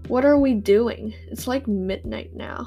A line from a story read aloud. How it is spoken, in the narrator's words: I asked